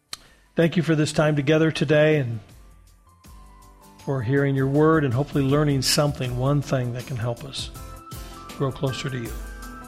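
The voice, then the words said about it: Slightly raspy, dry voice. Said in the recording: “my voice was a little raspy ... a little dry throat from a dry Arizona summer”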